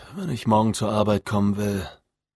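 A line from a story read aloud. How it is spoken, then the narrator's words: Sighing. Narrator (German): sagte seufzend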